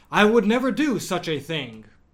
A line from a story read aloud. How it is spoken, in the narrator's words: exclaimed, completely shocked